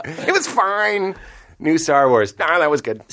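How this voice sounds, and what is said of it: Joe DeRosa impression. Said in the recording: “my Joe DeRosa impression”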